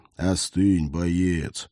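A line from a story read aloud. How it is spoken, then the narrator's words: Soft, deeply heartfelt. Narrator (Russian): Наф-Наф сказал это мягко, но до того проникновенно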